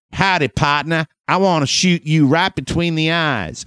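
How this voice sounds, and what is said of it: Put-on cowboy accent. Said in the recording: “were you doing a cowboy accent? ... I do accents too.”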